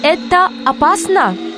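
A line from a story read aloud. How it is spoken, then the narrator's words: Muffled behind mask. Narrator (Russian): Из-за маски его голос звучал глухо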